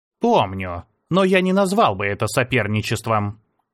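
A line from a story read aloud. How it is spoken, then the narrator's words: Dry reply. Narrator (Russian): сухо ответил Идо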